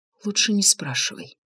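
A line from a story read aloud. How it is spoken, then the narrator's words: Mouthed whisper. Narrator (Russian): одними губами прошептала Инга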